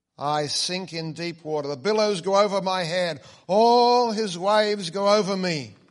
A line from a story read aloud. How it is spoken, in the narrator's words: Christian began to sink so that he cried out to his good friend Hopeful